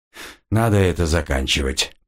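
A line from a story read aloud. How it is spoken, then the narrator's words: Muttering. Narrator (Russian): пробормотал он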